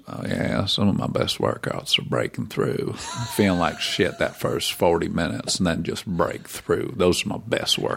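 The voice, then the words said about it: Matthew McConaughey impression. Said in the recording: “Matthew McConaughey ... drop the impersonation? Because it was pretty solid work.”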